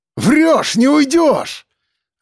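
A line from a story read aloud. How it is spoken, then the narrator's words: Barked. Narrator (Russian): Рявкнул я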